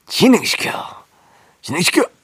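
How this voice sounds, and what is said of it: Imitates another person's voice. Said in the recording (Korean): “성대모사는 아무나 하는 게 아니에요 ... 황재성 님이 따라하는, 이경영 씨를 따라하는, 황재성 씨를 따라하는 이기광입니다”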